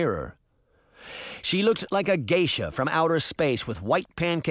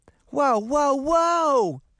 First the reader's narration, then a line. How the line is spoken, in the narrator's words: Daphne cried